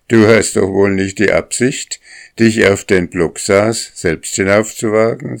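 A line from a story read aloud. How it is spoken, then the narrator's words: Said laughing. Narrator (German): sagte der Propst zu dem Pferd und lachte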